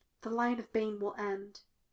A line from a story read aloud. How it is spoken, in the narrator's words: he whispered